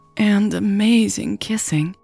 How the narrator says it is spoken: Natalie sighed

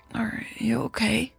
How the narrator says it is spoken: She asked, her voice hoarse from sleep

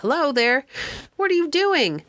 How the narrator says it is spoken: someone in an upper room opened a window and called out

